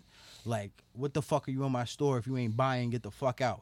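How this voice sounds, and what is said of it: Thick old Italian accent. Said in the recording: “He's an old Italian, thick accent.”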